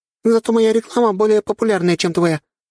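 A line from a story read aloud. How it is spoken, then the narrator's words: Snort. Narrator (Russian): фыркнула Оля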